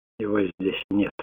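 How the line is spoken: Hoarse with disappointment. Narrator (Russian): произнес Питер хриплым от разочарования голосом

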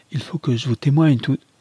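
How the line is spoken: Exclaimed. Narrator (French): s'écria Lucius

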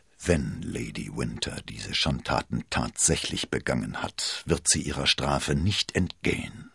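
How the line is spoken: Murmured. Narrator (German): murmelte er

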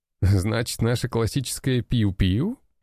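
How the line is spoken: Laughing. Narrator (Russian): рассмеялся один из бойцов

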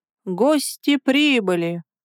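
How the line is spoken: Solemn rustling whisper. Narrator (Russian): торжественно прошелестел дворецкий

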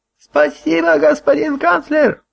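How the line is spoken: Sudden shout, old woman. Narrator (Russian): вдруг закричала какая-то старуха

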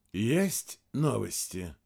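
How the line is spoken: Deceptively soft question. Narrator (Russian): спросил директор ГРУ обманчиво мягким голосом

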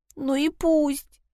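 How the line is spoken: Sobbing. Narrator (Russian): Труда опять зарыдала

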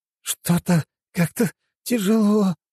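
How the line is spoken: Wheezing. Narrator (Russian): просипел Фипче

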